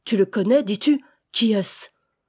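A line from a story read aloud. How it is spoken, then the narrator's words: Growling. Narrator (French): gronda-t-il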